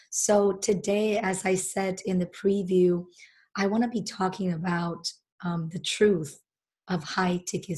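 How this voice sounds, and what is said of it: Deep, sick-sounding voice from a cold. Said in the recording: “my voice sounds really bad ... I actually got a really bad cold, so I apologize if I sound really deep”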